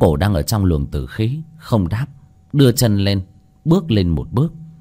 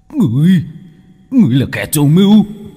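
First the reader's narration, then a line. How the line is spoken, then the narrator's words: Hissed. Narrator (Vietnamese): Tên thủ lĩnh cầm chắc binh khí rít lên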